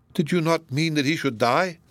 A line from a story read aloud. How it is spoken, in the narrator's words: sternly asked Donatello